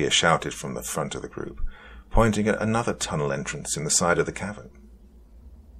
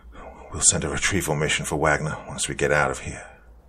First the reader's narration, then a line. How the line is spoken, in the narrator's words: I panted out to the group